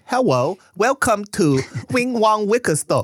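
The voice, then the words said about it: Put-on thick Asian accent. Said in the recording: “you have a thick Asian accent ... That's the accent you have to do.”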